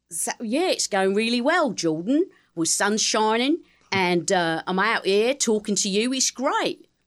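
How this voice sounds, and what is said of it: Put-on Cockney accent. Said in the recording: “Cockney is just very easy for me ... what would Cockney sound like”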